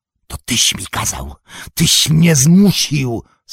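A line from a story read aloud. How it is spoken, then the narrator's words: Hissed. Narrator (Polish): syknął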